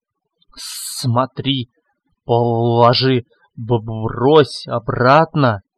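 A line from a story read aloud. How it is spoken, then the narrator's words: Hissing inner voice. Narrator (Russian): шипело в его голове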